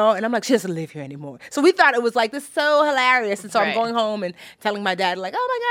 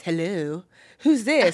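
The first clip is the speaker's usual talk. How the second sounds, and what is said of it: Put-on answering voice. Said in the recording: “put on the voice.”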